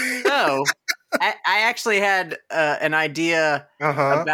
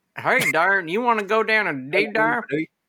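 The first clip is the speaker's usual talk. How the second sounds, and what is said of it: Silly put-on southern accent. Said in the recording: “the southern accent, it's a silly accent.”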